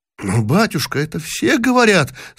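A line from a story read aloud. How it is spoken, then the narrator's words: Boy's trembling voice. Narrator (Russian): сказал трепетным голосом мальчик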